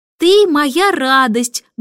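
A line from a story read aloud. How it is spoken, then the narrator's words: Loud reading aloud. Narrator (Russian): громко прочла Джейн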